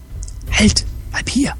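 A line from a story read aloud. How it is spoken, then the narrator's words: Whispered. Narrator (German): flüsterte Naku Naru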